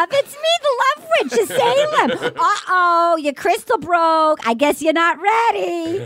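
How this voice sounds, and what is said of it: Thick put-on Massachusetts accent. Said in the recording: “the thick Massachusetts accent”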